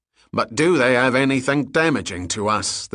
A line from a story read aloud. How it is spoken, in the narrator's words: the security man asked impatiently